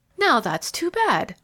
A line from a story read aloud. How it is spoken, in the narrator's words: cried Edith Thornton